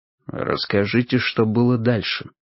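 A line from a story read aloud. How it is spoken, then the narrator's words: Quiet. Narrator (Russian): тихо произнес Финлей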